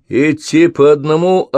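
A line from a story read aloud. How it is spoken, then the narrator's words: Sharp shouted command. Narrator (Russian): окрикнул их солдат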